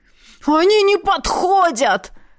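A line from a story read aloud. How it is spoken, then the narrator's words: Gnome's howl. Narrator (Russian): взвыл гном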